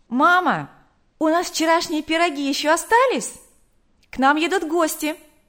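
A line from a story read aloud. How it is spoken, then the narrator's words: Calling out loudly. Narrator (Russian): Потом крикнула матери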